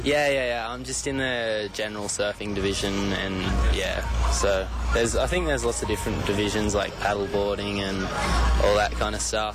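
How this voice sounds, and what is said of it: Australian accent. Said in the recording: “you sound Australian”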